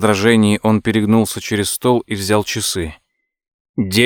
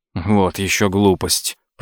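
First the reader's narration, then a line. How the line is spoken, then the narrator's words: Mumbling. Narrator (Russian): пробормотал Том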